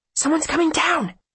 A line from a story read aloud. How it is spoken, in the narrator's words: she hisses